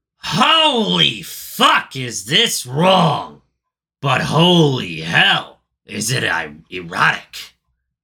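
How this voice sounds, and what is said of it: Imitates another person's voice. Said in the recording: “best Gilbert Gottfried impression I've ever done ... I didn't force it too hard ... getting it into my nose a little bit ... you're missing that really high pitch ... I'm missing the nasal”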